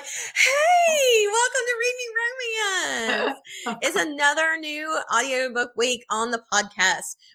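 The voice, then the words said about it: Upbeat radio DJ voice. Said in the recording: “I've got my DJ voice on right now”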